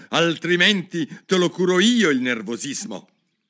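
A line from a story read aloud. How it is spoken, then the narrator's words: Angry repetition, king. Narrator (Italian): ripeté il re con voce collerica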